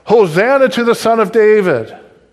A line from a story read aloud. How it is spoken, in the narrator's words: the people were shouting